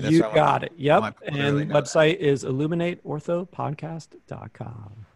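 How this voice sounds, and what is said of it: Deep announcer-style radio voice. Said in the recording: “That was my radio voice. ... That was really good.”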